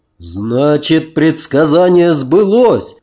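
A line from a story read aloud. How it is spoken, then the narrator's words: Abbot's joyful exclamation. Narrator (Russian): радостно воскликнул настоятель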